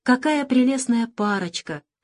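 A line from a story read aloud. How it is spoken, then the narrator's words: Tender doll voice. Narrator (Russian): Ласково говорила волшебная тряпичная кукла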